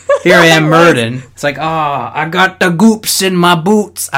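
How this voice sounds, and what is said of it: Poor impression of Murden. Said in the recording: “I can't do a good Murden voice... That was terrible”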